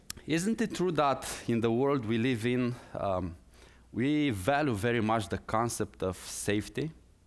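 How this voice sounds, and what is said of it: Strong non-native English accent. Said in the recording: “with strong accent,”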